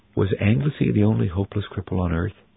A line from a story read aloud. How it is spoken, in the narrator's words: asked Cornelius quietly